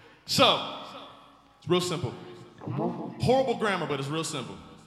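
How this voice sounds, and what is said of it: Usual voice. Nothing is said of it.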